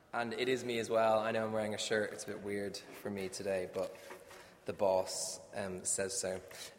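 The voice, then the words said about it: Speaks with a noticeable accent. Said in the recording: “I actually have an accent ... that's a terrible accent, probably”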